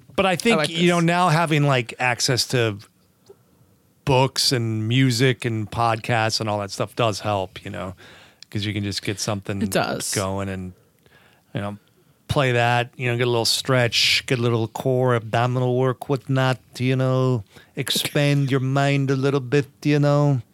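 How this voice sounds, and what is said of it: Put-on California accent. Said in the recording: “You're doing your California accent again.”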